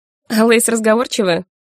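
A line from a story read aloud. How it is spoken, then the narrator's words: Snorting. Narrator (Russian): хмыкнул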